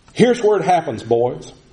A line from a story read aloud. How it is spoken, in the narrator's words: one of the men named Terrell just exclaimed very loudly